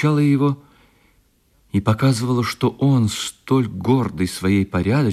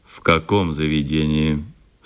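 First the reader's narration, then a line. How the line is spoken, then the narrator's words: Stern question. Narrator (Russian): строго спросил член в очках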